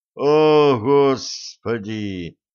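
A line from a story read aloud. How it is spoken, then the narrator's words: Groaning. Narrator (Russian): простонал Блад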